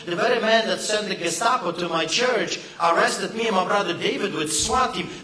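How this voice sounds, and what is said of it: Foreign immigrant accent. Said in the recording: “just believe my accent ... I grew up behind the Iron Curtain ... us immigrants”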